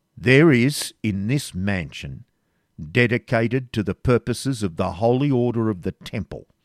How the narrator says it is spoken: said the Grand Master in a severe tone

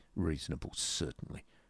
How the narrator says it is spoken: muttered Mr

